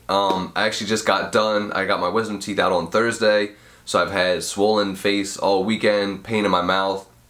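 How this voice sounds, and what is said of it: Congested sick voice with sniffles. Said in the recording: “you can't tell by my voice ... I am sick ... I got a cold ... I apologize for any sniffles and, you know, weirdness in my voice”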